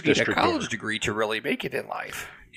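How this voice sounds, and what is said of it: Cartoon character voice impression. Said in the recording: “That was my impression of the SpongeBob.”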